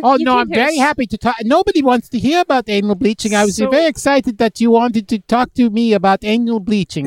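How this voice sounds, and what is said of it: Finnish accent. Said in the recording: “I'm from Finland, by the way. ... I could tell. Yeah. The accent”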